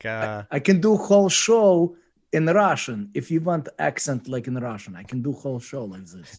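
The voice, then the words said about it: Good put-on Russian accent. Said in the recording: “like a Russian accent ... I can do with the Russian accent ... That's a pretty damn good accent.”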